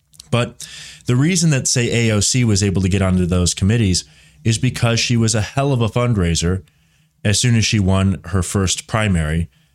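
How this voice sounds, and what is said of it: Voice weakened, not fully recovered. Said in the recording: “despite the last bit of this cold. I'm getting over 100-degree fever last week, but my voice is still not 100%.”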